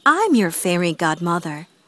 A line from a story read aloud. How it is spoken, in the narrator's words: said kindly